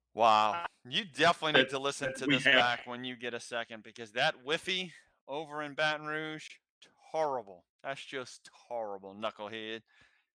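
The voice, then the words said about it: Imitates another person's voice. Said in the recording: “that impression of Charles Barkley was terrible”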